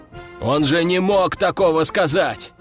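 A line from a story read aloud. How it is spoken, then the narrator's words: Exclaiming. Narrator (Russian): воскликнул Серый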